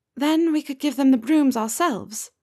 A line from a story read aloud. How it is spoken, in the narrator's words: Nymph says wistfully